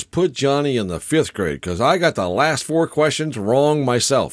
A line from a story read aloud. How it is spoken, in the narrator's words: The principal breathes a big sigh of relief and says